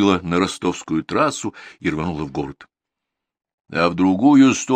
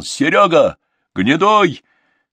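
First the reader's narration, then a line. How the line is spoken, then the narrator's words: Shouted after someone. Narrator (Russian): сказал шоферу Гнедой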